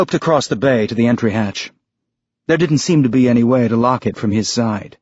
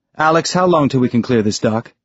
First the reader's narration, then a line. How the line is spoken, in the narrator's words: Holden asked